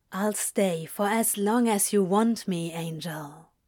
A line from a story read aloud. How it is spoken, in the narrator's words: Crowley said gently